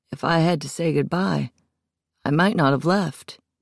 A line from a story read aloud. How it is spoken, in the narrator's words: he finally sighed